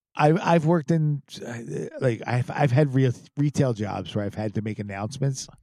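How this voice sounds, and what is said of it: Philadelphia accent. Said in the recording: “to try not to sound like a dirtbag Philadelphia guy... the Philly accent... the Philly accent is terrible.”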